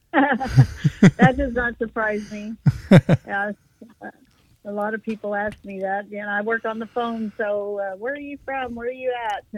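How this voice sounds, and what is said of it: Slight Texas drawl. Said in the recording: “you definitely have a little bit of a Texas drawl to you ... I do have that Texas accent.”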